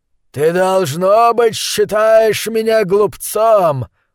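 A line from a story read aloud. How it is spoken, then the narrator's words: Growl. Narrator (Russian): прорычал он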